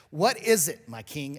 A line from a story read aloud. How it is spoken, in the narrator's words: Ahimelech asked